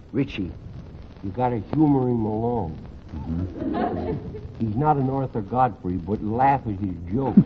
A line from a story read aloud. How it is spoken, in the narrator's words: whisper to him, says